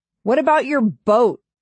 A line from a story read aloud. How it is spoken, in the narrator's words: I shout to Dale